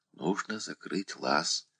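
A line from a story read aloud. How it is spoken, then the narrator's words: Whispered. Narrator (Russian): прошептала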